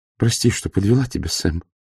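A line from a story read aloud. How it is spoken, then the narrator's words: Whispered. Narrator (Russian): прошептала его жена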